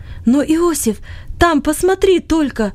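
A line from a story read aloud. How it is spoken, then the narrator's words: Sudden cry. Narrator (Russian): вдруг вскрикнул он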